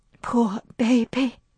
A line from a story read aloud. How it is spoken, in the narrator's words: whispered Melanie